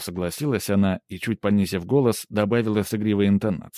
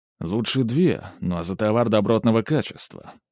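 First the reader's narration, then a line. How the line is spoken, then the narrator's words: Dry remark. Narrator (Russian): сухо заметил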